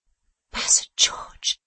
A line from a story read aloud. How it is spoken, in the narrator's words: said Tom, speaking in a feeble voice